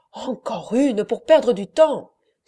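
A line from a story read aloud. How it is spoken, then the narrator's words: Exclaiming. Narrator (French): s'écria Perpétua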